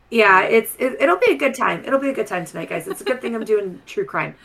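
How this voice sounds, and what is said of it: Strained, unwell-sounding voice. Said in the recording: “My voice is fine right now because I drank some throat coat tea ... You can still kind of tell you're struggling.”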